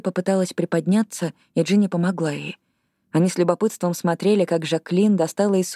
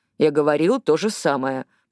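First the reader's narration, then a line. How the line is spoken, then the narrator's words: Grumbling. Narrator (Russian): проворчал Палакика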